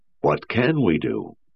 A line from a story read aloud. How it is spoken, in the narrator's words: said Lanning